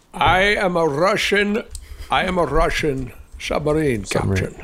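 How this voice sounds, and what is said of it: Put-on Russian accent. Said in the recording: “we'd like you to do a Russian accent. This is my Russian accent.”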